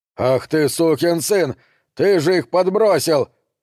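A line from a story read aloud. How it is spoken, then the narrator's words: Angry shout. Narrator (Russian): крикнул Маркус Брайнхарту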